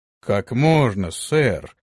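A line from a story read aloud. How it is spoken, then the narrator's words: Surprised exclamation. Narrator (Russian): удивленно воскликнул Антон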